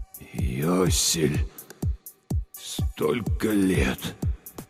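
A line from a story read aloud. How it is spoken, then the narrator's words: Breathless exhale. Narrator (Russian): выдохнул он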